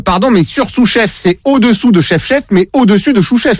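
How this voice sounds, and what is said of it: Poor put-on Québécois French accent. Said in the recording (French): “mon accent québécois, il est vraiment pourri!”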